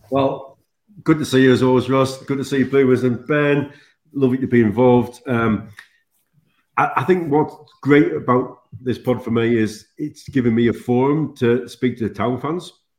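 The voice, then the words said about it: Sunderland accent. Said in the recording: “originally from Sunderland ... accent, of course, is very obvious ... your beautiful accent”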